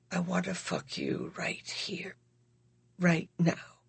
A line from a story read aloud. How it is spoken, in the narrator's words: He whispered in the sexiest, saddest voice